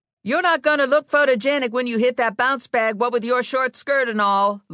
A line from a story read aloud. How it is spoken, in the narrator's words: Lula yelled